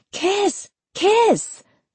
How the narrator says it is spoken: Melissa tapped a fork into her wine glass and shouted

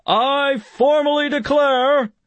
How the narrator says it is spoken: bellowed

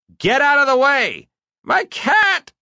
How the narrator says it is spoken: she cried

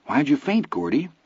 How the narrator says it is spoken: Vern asked anxiously

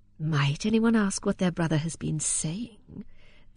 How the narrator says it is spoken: said Solomon, in a soft tone of humility, in which he had a sense of luxurious cunning, he being a rich man and not in need of it

